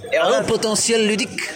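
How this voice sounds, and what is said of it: Put-on Belgian French accent. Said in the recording (French): “Avec l'accent belge, ça le fait bien.”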